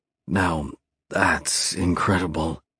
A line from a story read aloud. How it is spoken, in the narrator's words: I murmur